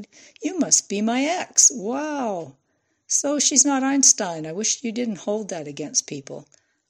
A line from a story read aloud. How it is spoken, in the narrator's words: cooed